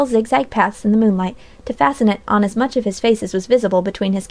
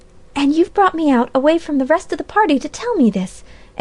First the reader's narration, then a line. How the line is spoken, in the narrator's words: exclaimed Polly, with flashing eyes